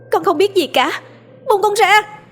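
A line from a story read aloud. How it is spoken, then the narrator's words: Loud shout. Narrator (Vietnamese): Nó ... hét to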